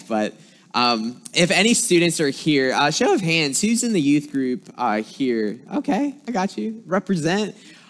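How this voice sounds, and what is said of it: Slight Southern US twang. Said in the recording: “I'm originally from South Carolina, so if you hear some words that have a little twang to it”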